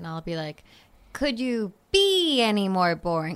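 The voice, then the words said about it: Good impression of a sitcom character. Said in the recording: “that was a pretty good Chandler impression ... That was very good”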